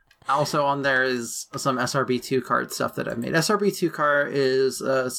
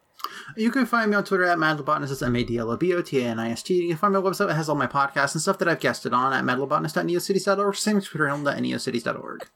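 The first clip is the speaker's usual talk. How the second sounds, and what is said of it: Speaking very fast. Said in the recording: “You said that so fast.”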